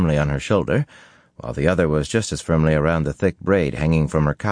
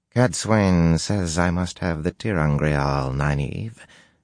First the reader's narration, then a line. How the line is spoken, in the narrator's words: she said in the soft Shonchan drawl